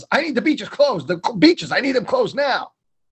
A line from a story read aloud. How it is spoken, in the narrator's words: she yells